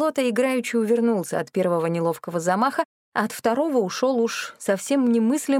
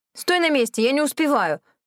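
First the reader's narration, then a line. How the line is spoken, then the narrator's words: Sharp bark. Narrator (Russian): рявкнула я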